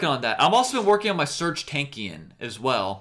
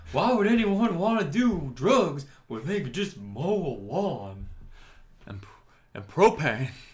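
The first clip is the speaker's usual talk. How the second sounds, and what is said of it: Imitates a cartoon character's voice. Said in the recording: “That's not a bad Hank Hill impression ... That's pretty good.”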